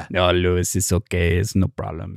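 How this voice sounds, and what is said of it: Put-on Latino accent. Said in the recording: “For some reason, turned into a Latino just now. I have a little bit of a hard time doing that.”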